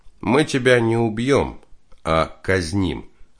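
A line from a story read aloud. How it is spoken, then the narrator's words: Plain. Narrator (Russian): ответил старший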